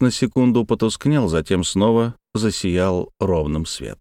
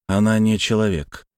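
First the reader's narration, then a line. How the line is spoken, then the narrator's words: Weary, dismissive. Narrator (Russian): устало отмахнулся я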